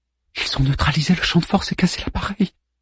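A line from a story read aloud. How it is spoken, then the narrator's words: Murmured. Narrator (French): murmura Savi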